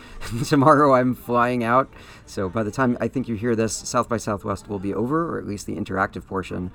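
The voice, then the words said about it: Tired, fading voice. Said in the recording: “if it sounds like my voice is fading, that's because it is”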